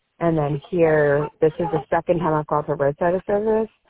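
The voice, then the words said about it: Voice hoarse from a cold. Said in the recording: “pardon my voice, I got a cold.”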